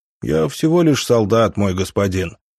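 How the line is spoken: Bored voice. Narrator (Russian): сказал он скучным голосом

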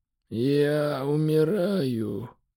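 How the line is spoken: Faint emperor's whisper. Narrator (Russian): еле слышно прошептал император

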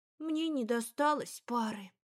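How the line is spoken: Sighing. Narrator (Russian): Жужа вздохнула

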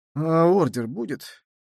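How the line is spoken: Mumbled, secretly hopeful. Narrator (Russian): промямлил он, в глубине души надеясь, что никто ничего не заметил

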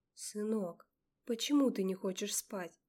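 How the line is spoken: Tender mother bear. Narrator (Russian): сказала мама-медведица, нежно и любя

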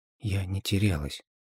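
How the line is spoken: Barely audible objection. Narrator (Russian): едва слышно возразила Алиса

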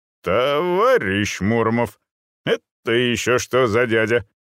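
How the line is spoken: Menacing, clipped. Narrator (Russian): грозно отчеканил комиссар

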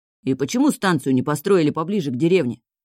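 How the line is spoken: Grumbling. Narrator (Russian): ворчал Валька

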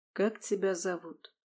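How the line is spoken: Even, calm question. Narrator (Russian): таким же ровным и спокойным голосом спросил незнакомец

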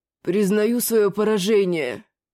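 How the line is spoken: Muffled grumble. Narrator (Russian): глухо проворчал тот

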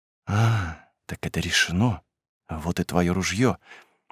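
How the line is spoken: Serious whisper. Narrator (Russian): Она стала серьезной и прошептала

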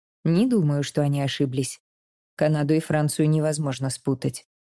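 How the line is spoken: Serious reply. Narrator (Russian): серьезным тоном отвечает отец

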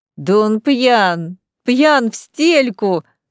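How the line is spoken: Laughing loudly. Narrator (Russian): захохотал Джонатан Трэнси

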